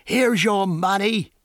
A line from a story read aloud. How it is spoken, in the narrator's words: he yelled, his voice hoarse and gasping